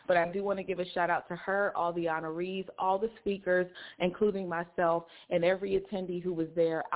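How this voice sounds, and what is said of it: Slightly hoarse voice. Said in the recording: “I'm a little bit hoarse ... because I've been, like, talking all weekend”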